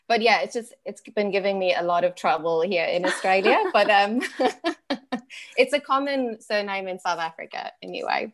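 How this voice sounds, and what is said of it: South African English accent. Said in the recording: “your beautiful accent”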